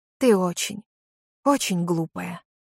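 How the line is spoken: Quiet voice. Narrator (Russian): сказал Джей Ди таким же тихим голосом, как и у его жены

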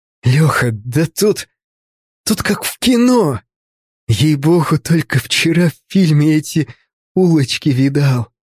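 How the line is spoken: Breathed out. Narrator (Russian): выдохнул

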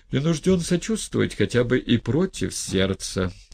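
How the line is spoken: Sighing. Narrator (Russian): вздохнул Степан Трофимович

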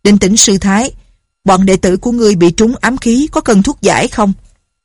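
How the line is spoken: Loud. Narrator (Vietnamese): Lão liền lớn tiếng nói

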